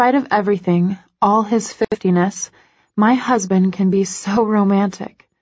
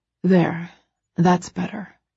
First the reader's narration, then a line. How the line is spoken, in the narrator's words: he murmurs